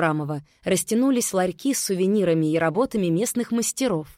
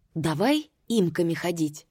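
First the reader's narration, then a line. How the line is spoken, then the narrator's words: Whisper. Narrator (Russian): прошептал он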